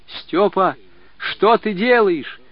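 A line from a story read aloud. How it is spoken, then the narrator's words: Boy's hurried shout. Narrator (Russian): Мальчик едва успел крикнуть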